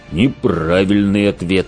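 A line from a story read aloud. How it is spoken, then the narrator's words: Growl. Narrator (Russian): прорычал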